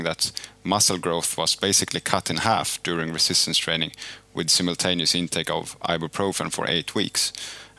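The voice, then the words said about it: Swedish accent. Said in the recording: “a nice Swedish accent in there”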